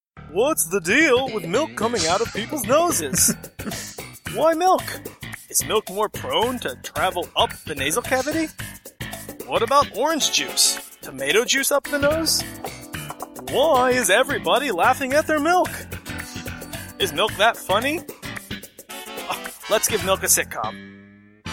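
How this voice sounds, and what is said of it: Jerry Seinfeld impression. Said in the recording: “You do a pretty good Seinfeld. ... I do a good impression of someone trying to do an impression of Seinfeld.”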